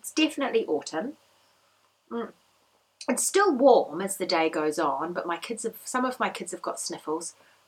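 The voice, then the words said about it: Croaky voice. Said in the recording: “I've got a croaky voice today.”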